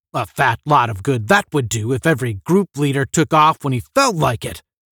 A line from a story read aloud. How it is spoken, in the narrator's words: the general sputtered